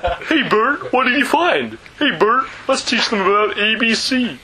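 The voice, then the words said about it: Sesame Street puppet character voice. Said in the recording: “doing an impression of Sesame Street”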